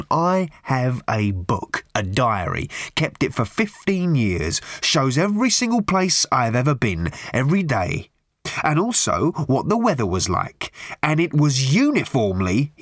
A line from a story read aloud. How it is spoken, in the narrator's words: he snarled